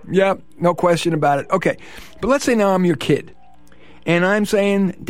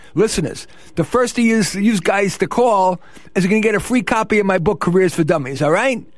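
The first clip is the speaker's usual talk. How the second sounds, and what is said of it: Exaggerated New York accent. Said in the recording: “That's not the way I really talk. ... Did I still have my New York accent? ... You do.”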